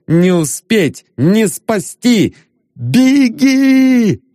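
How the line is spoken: Shout. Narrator (Russian): Еще закричал он

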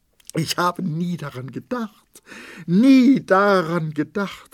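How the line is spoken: Cried out in despair. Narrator (German): rief sie, während sie die Hände wie in Verzweiflung rang

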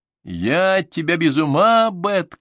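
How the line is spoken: Shouted. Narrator (Russian): крикнул я

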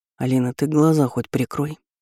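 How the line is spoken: Hoarse whisper in ear. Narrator (Russian): хрипло шепнул Богдан мне на ухо

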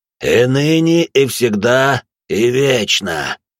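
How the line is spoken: Hoarse priest. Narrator (Russian): прохрипел отец Марк

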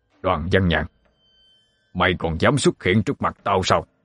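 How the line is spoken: Shouted. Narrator (Vietnamese): thầy Úc quát lên

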